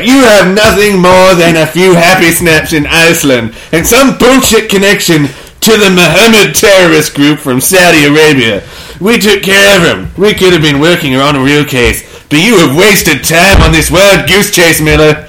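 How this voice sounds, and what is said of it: Angry yelling. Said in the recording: “the yelling ... Well, I'm the angry chief. ... why he's yelling”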